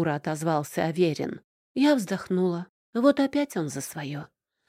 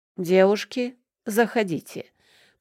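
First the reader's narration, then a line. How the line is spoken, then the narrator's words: Loud booming bass. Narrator (Russian): пробасил на весь квартал Данил Никитич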